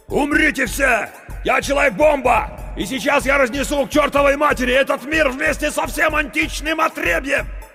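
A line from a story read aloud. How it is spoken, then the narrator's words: Shouting. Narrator (Russian): Круз закричал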